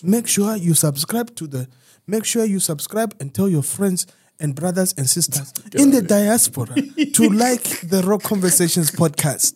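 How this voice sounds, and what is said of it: Zambian accent. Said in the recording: “Wonderful Zambian accent there, sir. ... Worked really hard on that shit.”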